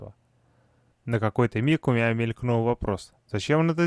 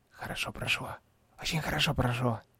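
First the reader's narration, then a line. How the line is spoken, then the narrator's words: Excited trembling whisper. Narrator (Russian): шепнул Патрик, весь дрожа от возбуждения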